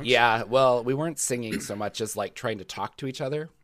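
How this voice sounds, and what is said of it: Worn-out, smoky voice. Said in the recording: “my voice is about to die. ... smoky voice”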